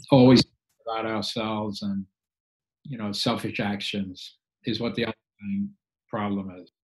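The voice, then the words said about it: English accent. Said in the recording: “the accent that I heard as an English accent”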